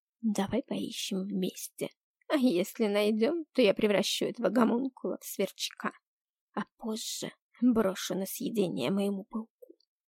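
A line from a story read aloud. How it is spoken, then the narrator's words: Woman hissing. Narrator (Russian): зашипела женщина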